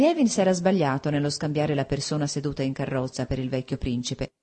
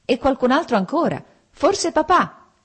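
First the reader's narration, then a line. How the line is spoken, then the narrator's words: Shout. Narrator (Italian): gridò Lievin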